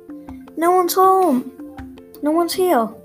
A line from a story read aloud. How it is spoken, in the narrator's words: Annie shouted down